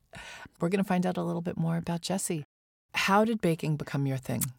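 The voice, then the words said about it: Hoarse, laryngitic voice. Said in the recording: “apologize for my voice a little bit. I just cannot shake this laryngitis”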